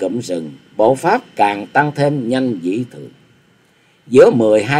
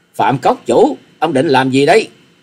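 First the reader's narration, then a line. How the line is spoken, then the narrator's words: Angry shriek. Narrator (Vietnamese): Hà Xà Tiên Tử tức giận thét lên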